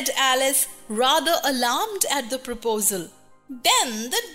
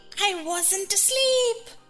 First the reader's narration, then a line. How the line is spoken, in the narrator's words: he said in a hoarse, feeble voice